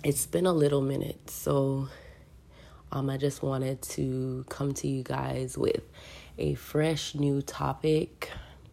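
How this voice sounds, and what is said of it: Voice sounds sick. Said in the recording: “Excuse my voice. I've been a little ill over the past week.”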